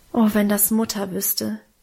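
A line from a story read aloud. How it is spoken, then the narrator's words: Sighing. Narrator (German): seufzte ich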